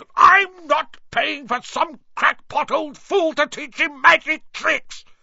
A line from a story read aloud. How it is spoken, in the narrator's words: yelled Uncle Vernon